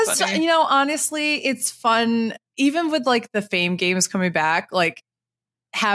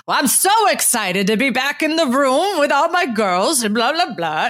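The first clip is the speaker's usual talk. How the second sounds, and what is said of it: Imitates another person's voice. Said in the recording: “that's your Kasha impression. ... I can hear it.”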